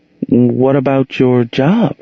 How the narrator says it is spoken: Monique inquired hesitantly

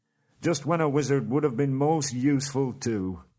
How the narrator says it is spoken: groaned Dori and Nori

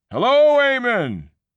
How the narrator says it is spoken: they roared back

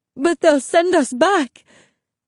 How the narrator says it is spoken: Mommy sobbed

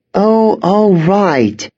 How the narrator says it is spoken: sighed

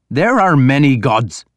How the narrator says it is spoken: Ivar snapped back

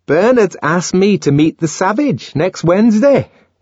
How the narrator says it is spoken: Fanny announced triumphantly

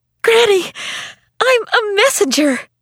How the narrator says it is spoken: burst in the door and cried

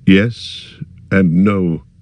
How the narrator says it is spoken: he answered slowly

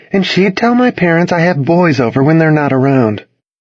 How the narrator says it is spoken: she said, sighing

